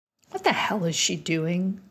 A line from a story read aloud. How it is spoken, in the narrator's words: said Tom Folsom